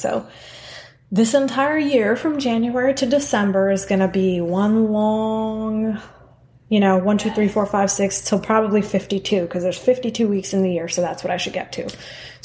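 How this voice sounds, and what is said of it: Hoarse, dry, cracking voice. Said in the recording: “My voice sounds a little craggly ... my voice decides to crack and go dry”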